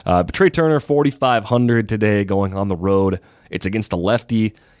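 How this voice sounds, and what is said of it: Hoarse, strained voice. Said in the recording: “As you can hear, my voice is almost shot”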